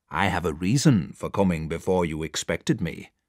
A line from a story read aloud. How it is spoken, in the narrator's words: answered Mr